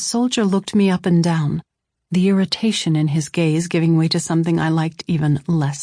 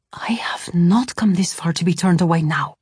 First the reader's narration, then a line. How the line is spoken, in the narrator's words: I whispered fiercely to Saul